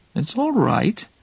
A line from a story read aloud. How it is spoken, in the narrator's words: said sweetly, still hoping to heal her